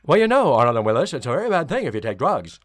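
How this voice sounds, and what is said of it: Imitates another person's voice, mush-mouthed. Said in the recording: “just a little bit mush-mouth ... best Conrad Bain impression I've ever seen”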